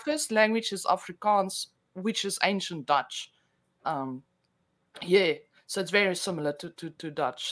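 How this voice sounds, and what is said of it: South African accent, slightly Australian. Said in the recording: “you have a great accent ... an ancient Dutch accent ... with a little bit of a mix of Australian”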